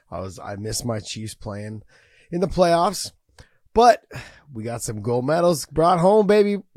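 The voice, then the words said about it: Hoarse, worn-out voice. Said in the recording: “you guys can hear it in my voice... my voice is kind of gone, shot... My voice is gone... I was yelling so much”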